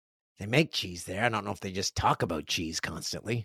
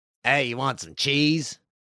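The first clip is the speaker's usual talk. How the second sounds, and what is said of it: Attempted Wisconsin accent. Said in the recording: “I don't know a Wisconsin accent.”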